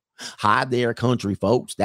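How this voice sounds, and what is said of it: Slow Southern drawl. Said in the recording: “In the South, people talk a little slower with the drawl.”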